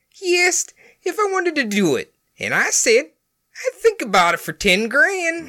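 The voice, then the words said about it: Gangster villain voice drifting South African. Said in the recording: “stupid voice ... I was going for Dick Tracy accent. Dick Tracy villain. ... It slipped into South Africa. ... You completely missed the mark on that ... international Dick Tracy villain”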